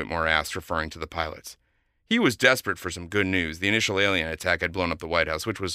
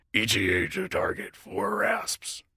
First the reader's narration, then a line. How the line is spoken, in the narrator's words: rasped General Loggia